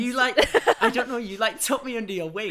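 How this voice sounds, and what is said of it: Northern English Manchester accent. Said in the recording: “I'm from the north, from Manchester. As you can tell by my accent.”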